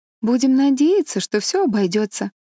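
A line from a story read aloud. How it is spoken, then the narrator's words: Cheerful. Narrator (Russian): весело проговорила Энн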